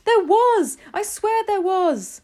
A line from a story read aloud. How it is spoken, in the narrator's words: the man was shouting back